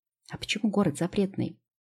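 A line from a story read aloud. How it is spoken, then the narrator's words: Whispering in ear. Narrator (Russian): зашептала на ухо Лео я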